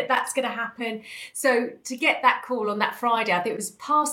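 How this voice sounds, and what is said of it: Usual voice. Nothing is said of it.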